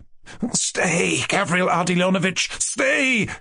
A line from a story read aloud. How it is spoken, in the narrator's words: cried Mushkin in genuine dismay